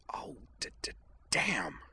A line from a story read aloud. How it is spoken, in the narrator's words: she hissed